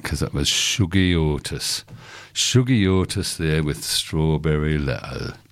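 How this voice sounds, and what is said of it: Put-on northern British accent. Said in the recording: “I'm going to say this in a northern British accent”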